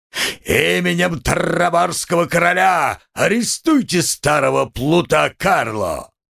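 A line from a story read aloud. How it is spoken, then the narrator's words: Roared. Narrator (Russian): голос Карабаса-Барабаса проревел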